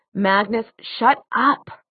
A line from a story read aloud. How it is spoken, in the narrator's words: Alec hissed